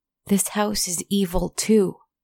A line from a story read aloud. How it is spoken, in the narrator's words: the littlest child sobbed and cried out